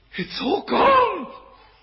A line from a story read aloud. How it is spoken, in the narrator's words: he screamed out